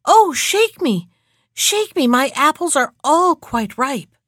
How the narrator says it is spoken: called out

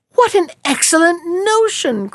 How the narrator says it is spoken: cried Dindonette

